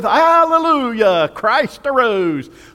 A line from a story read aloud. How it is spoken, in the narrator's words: a voice was heard from under the church shouting